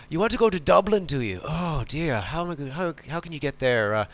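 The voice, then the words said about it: Weak attempt at Irish accent. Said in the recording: “Sorry, I'm not very good at Irish accents.”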